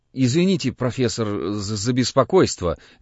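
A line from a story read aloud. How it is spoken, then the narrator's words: Stammering. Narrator (Russian): начинает он, заикаясь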